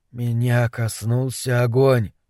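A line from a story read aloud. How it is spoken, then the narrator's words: Whispered. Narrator (Russian): прошептал Дебона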